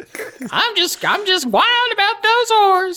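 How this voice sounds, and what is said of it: Old prospector character voice. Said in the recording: “your prospector voice”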